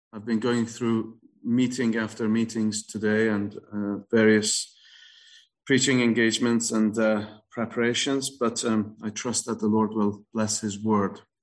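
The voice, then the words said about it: Tired voice. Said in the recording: “my voice is a little tired”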